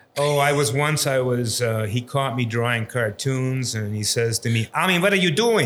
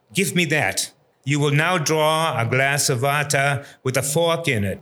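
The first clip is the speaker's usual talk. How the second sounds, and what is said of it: Imitated heavy German accent. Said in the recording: “he had this great German accent, and I will reproduce that accent when I talk about him sometimes, because it's kind of funny”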